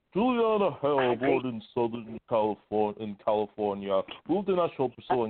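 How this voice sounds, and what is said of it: Good Morgan Freeman impression. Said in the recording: “That's a pretty good Morgan Freeman impression, actually.”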